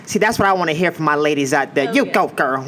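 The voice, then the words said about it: Poor imitation of another person's voice. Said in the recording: “That's a terrible Tyra impression. ... That doesn't sound anything.”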